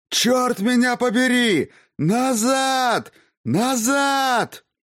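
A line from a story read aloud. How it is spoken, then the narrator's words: Extremely loud shouting. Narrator (Russian): Так громко он еще никогда не кричал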